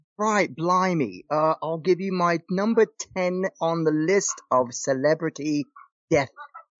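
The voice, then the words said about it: Put-on English accent. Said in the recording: “Should I talk in an English accent?”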